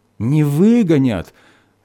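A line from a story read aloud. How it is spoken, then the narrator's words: Joyful agreement. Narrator (Russian): радостно поддержала хозяйка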